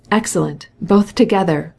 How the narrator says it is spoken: cried Levin

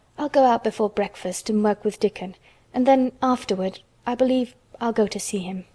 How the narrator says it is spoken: she murmured to herself

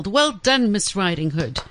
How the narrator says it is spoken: Pig, peeping through the window, stood and yelled

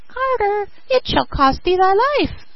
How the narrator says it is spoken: cried

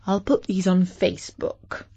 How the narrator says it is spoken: said

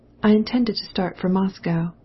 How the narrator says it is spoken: said Anna

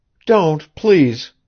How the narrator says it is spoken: she cried, recovering herself almost at once

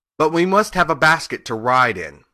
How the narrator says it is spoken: he said

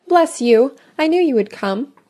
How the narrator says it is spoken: exclaimed Mrs

